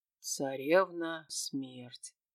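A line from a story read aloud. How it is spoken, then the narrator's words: Mumbling. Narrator (Russian): пробормотал Зельевар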